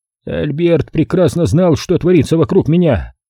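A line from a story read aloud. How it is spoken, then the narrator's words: Displeased grumble. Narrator (Russian): недовольно проворчал Стентон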